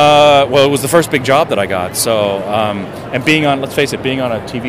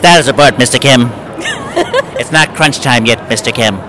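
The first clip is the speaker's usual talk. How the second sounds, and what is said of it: Imitates another person's voice. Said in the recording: “a really good Kate Mulgrew impression”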